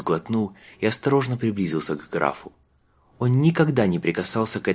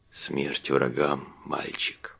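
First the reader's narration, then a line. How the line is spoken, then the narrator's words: Whisper. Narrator (Russian): прошептал граф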